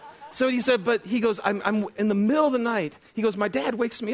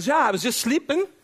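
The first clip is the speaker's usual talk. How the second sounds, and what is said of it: Weak attempt at Irish accent. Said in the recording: “So I'm going to try to do an Irish accent. Please forgive me ... That's bad. I'm not even going to try ... Can you tell I'm not an actor? ... pretty bad Irish accents”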